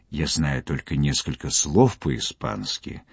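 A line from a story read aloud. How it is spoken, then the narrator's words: Whisper. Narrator (Russian): произнес шепотом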